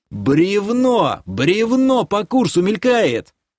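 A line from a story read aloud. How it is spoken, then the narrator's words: Frantic, transfixed yell. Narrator (Russian): Истошно заорал я, завороженно пялясь на падающее с водопада толстенное бревно, летящее прямо на нас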